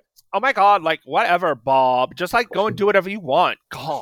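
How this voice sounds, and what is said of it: Brooklyn-tinged put-on Valley Girl accent. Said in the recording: “you do it better than me ... with the New York tinged ... The slightly Brooklyn tinged version of a Valley Girl accent is great.”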